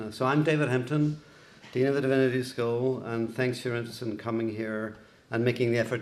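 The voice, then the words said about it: Northern Irish accent. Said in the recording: “You can tell my accent is Irish ... I was born in Belfast in Northern Ireland”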